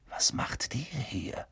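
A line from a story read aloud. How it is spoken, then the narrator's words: Whispering. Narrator (German): flüsterte Harry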